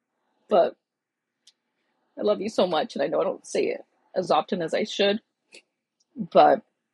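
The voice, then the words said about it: Emotional, choked-up voice. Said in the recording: “I didn't want to get emotional, sorry.”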